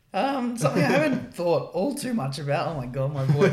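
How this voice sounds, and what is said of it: Voice cracking, sounds like young boy. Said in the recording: “I've got a sore throat. ... I was fine 20 seconds ago. ... turned into literally a 12-year-old boy there”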